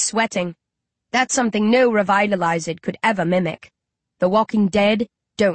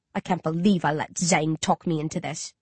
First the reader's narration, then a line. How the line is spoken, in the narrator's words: he mutters